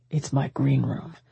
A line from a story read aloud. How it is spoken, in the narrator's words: he muttered